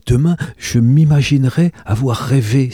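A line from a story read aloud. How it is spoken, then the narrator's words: Exclaiming. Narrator (French): s'écria-t-elle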